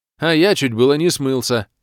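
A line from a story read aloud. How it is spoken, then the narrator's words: Wry snort. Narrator (Russian): хмыкнул Док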